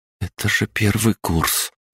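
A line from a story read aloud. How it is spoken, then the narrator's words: Amazed mutter. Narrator (Russian): Изумленно пробормотала она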